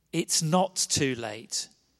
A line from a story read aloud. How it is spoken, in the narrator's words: Jesus said